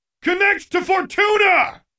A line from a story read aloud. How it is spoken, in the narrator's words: Defiant called out